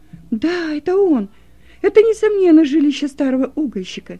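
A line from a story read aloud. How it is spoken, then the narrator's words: Joyful exclamation. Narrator (Russian): радостно воскликнула Роза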